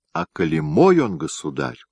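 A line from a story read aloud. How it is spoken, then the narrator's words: Plain. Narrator (Russian): сказала Мария Темрюковна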